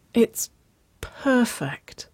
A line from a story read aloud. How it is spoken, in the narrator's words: Waverly sighed, the words muffled against the wool of Nicole's coat